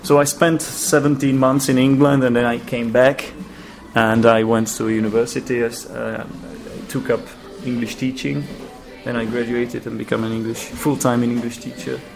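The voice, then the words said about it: Czech-accented English with British hints. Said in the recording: “a hint of an English accent, I think... Some words... I hope it's not all just Czech accent... I'm trying to speak with British accent”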